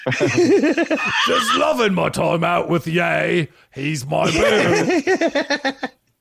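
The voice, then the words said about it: Put-on Cockney British accent. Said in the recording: “read her tweets in a Cockney in that exact voice ... That's my best British accent ... It's a Cockney”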